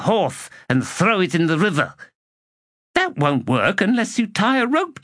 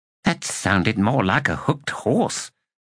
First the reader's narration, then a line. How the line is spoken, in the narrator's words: Drawfirst muttered